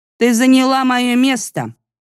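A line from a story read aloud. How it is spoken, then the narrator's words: Rather rude. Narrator (Russian): довольно грубо сказала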